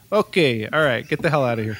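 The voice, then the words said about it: Heavy Brooklyn accent. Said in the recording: “So I'm deep New York. So this is a heavy, heavy Brooklyn accent here... this deep Brooklyn accent”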